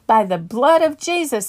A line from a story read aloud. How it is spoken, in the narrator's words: I yelled